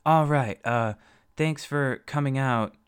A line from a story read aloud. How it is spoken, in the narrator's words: Alex said nervously